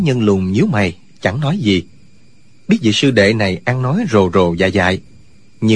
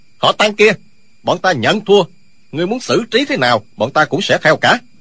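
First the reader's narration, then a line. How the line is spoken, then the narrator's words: Indignant shout. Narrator (Vietnamese): Hai sư đệ dù gì cũng là trưởng bối trong phái Hoa Sơn, đâu có thể như vậy được, liền quát lên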